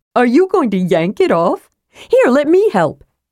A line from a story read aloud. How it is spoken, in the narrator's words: offered, adding excitedly